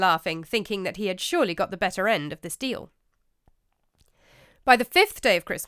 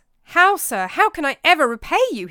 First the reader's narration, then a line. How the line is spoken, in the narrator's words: he exclaimed